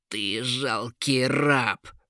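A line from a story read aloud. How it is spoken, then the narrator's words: Hissing. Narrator (Russian): прошипел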